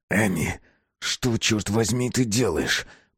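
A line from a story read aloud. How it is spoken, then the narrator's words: Hiss. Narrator (Russian): прошипел Безил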